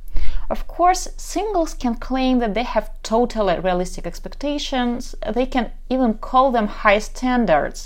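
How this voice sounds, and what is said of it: Ukrainian accent. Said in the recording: “I'm from Kharkov, Ukraine, so probably you can tell already by my accent.”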